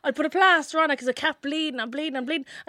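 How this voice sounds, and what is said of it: Irish accent. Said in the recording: “she didn't really know, like, my accent and stuff like that. I was like, Ireland.”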